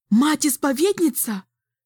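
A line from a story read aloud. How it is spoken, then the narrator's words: Shouted. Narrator (Russian): закричала Кассия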